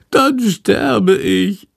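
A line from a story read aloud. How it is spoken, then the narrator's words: Wailing. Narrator (German): jammert Chandor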